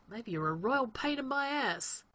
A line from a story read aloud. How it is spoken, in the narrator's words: Rodney mutters